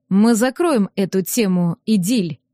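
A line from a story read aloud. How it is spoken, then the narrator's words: Icy cold tone. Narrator (Russian): ледяным тоном заявил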